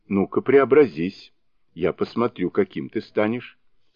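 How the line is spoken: Plain. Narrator (Russian): сказал танский монах

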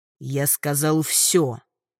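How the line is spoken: Peculiar growl. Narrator (Russian): Как-то по-особенному рыкнул местный тиран

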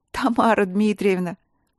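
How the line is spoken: Moan with nervous laughter. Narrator (Russian): простонала Василина, не в силах сдержать нервный смех

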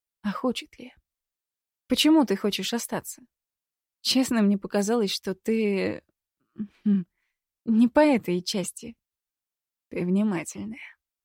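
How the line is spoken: Soft, smiling. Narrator (Russian): мягко улыбнулся Адам

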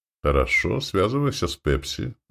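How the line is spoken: Sighing. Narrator (Russian): вздохнул Костя

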